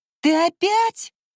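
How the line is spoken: Shrieking. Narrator (Russian): взвизгнула она

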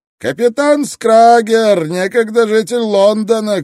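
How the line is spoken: Shout, coarse laughter. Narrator (Russian): крикнул человек в ответ и грубо захохотал

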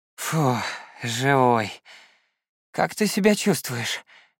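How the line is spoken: Relieved exhale. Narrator (Russian): выдохнул Рыбкин

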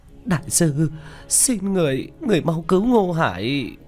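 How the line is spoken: Sobbing. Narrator (Vietnamese): Vu Mộng thút thít

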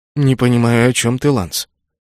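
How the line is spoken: Sighing. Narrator (Russian): Я вздохнул

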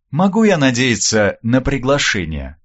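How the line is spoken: Polished society tone. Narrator (Russian): поинтересовалась Вербицкая-старшая самым светским тоном

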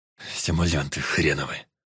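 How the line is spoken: Through gritted teeth. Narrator (Russian): Сквозь зубы процедил Кулаков

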